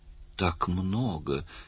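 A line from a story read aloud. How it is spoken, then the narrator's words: Barely audible protest. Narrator (Russian): еле слышно запротестовала Слайти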